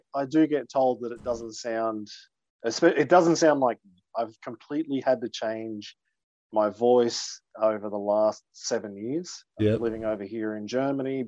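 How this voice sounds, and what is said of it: Australian accent. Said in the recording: “my first international guest with an Australian accent ... you're coming to me from thousands of kilometres away with an Australian accent”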